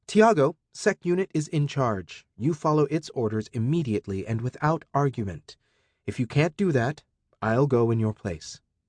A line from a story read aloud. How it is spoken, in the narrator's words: Arata said firmly